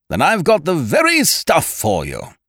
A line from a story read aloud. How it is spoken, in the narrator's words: he boomed